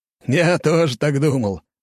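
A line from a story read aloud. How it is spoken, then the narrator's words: Laughing loudly. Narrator (Russian): расхохотался майор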